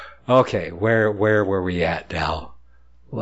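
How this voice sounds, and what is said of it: Usual voice. Nothing is said of it.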